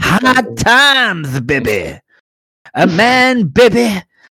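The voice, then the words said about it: Dusty Rhodes impression. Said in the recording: “That was my Dusty Rhodes impression.”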